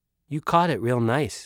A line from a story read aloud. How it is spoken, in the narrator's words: said